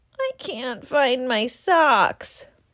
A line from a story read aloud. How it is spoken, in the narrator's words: moaned Rabbit